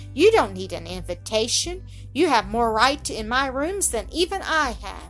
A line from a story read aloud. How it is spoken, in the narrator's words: she exclaimed